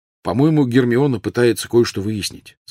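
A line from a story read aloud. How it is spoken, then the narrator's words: Plain. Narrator (Russian): сказал Рон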